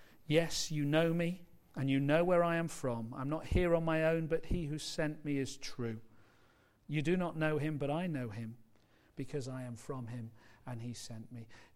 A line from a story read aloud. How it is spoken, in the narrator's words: he stood up and cried out in a loud voice